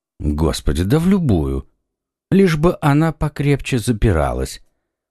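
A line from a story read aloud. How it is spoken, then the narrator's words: Indifferent tone. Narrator (Russian): произнес комиссар безразличным тоном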